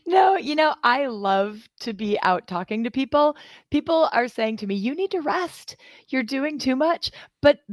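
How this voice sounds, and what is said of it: Slightly hoarse, laryngitic voice. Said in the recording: “I have a little touch of the laryngitis from all the talking that I've been doing.”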